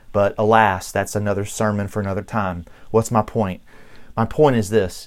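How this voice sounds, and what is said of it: Noticeable Southern American accent. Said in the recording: “as noticeable as my Southern accent is”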